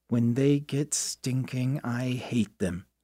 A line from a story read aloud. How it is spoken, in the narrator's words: said Johnny